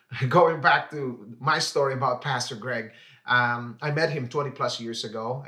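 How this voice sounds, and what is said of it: Filipino-tinged English accent. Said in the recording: “I am half Filipino and half African-American, as you could just probably notice that in the accent right now. So I've been confused with this accent”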